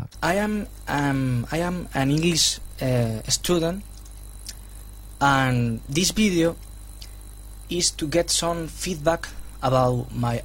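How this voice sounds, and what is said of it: Non-native English, Spanish accent. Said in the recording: “obviously, I can hear that it's not a native speaker ... he said that this is a video and not a video. And that's typically for Spanish-speaking people ... Spanish”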